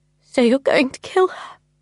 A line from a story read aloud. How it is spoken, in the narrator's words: I said, my voice breaking